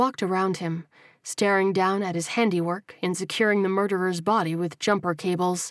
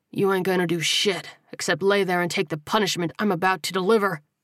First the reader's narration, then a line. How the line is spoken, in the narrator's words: he snarled